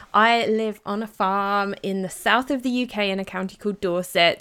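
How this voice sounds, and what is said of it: British accent. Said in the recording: “I live in the UK. You can probably guess that from my accent.”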